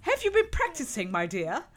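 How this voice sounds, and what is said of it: Put-on British English accent. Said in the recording (Dutch): “Ook een goed accent ook ... I'm a British.”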